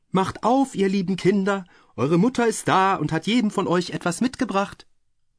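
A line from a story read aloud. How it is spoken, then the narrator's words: Called out, knocking. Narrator (German): klopfte an die Haustür und rief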